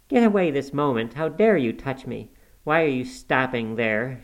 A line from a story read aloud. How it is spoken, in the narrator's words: she cried in a tone of disgust